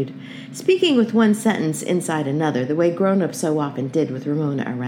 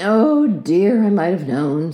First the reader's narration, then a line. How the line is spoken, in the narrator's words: sighed Mother